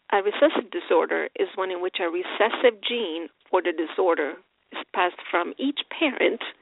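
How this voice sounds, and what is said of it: Speaks with a noticeable accent. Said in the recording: “let me see if I can explain this with my accent.”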